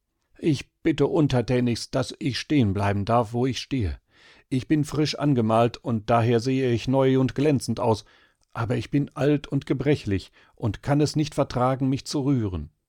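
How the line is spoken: Pitiful wooden man's voice. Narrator (German): der hölzerne Mann antwortete mit kläglicher Stimme

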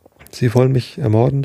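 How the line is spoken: Stammering. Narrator (German): stammelte er

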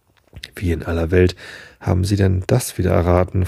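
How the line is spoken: Plain. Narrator (German): fragte ich

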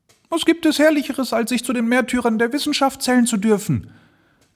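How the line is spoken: Madman's cry. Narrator (German): rief der Wahnsinnige

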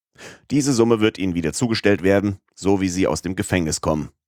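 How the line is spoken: Plain. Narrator (German): sagte der Richter

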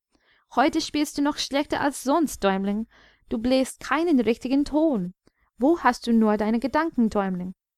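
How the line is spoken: Lamenting small birds. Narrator (German): die kleinen Vögel jammerten

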